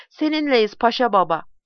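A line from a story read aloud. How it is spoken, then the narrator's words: Group shouting. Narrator (Turkish): diye haykırdılar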